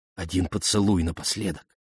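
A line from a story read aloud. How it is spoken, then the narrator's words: Plain. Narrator (Russian): сказала Ариадна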